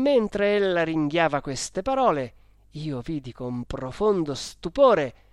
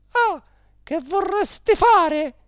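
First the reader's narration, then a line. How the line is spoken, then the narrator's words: Exclaiming. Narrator (Italian): La signora Geltrude esclamando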